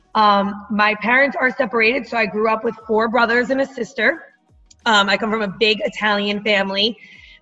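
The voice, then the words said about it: Loud New Jersey accent. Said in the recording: “I am from New Jersey, if you can hear it in my accent. ... I'm definitely Jersey loud and proud about it.”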